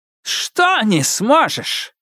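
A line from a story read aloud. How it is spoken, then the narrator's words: Barked, baffled. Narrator (Russian): рявкнула она, словно вопрос был настолько бессмысленным, что он сбил ее с толку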